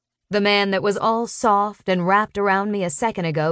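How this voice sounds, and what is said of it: Usual voice. Nothing is said of it.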